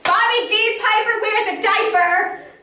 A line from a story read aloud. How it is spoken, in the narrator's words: I yelled